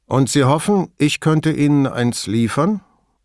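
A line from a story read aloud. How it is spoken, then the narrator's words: Calm. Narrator (German): fragte Braga ruhig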